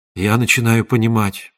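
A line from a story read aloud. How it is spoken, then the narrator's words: Whispered. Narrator (Russian): прошептал он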